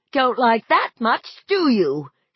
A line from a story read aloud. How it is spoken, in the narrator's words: she shrieked triumphantly at it